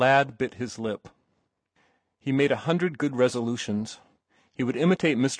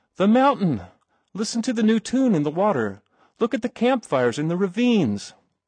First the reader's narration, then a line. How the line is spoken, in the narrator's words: He exclaimed